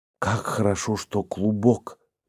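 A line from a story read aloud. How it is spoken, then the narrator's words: Whispered. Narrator (Russian): прошептала она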